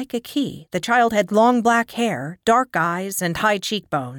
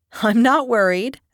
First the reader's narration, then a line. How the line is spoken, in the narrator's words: Aki chuckled